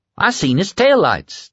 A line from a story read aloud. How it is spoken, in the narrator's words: Tommy said, his voice high with excitement